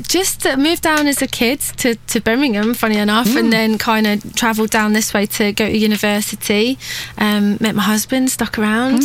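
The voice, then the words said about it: Scottish accent. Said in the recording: “So you are originally from Scotland. ... As we can tell.”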